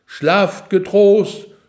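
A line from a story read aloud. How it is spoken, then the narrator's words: Loud clear call from above. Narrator (German): laut und klar vom Turm herab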